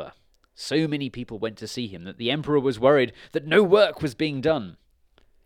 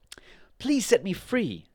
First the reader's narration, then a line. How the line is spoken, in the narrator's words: he begged